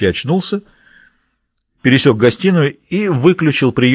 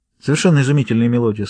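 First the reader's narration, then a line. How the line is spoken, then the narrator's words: Plain. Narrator (Russian): сказала Салли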